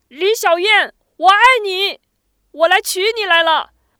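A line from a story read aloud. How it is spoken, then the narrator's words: Loud shouting. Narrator (Chinese): 薛池只好站在当院大声喊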